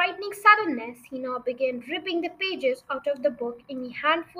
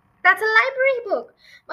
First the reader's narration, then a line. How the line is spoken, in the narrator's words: Matilda cried